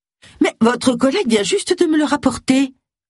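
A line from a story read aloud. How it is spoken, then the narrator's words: Exclaimed. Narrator (French): s'exclama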